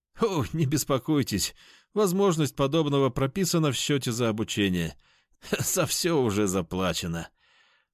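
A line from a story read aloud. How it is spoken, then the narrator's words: Low chuckle. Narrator (Russian): хохотнул низкий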